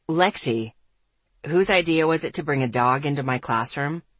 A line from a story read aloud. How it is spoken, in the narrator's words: he asked dryly